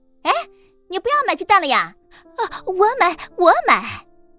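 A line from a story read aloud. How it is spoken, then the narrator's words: Loud question. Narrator (Chinese): 营业员的大声询问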